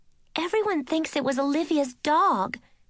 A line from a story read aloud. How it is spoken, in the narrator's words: Nishi cried